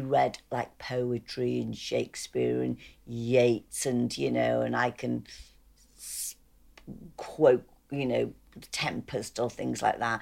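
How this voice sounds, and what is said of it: Scouse accent. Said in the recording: “Scouse accent”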